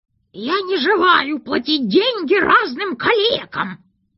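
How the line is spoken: Firm, nasty, squeaky. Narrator (Russian): твердо твердил он противным писклявым голосом

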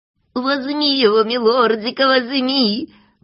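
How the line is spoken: Joyful squeal. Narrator (Russian): Радостно завизжал Клопс

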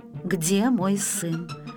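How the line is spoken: Muffled hollow mother's voice. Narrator (Russian): глухо повторила Славина мама

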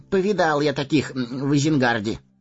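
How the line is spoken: Wry snort. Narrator (Russian): хмыкнул Мэри

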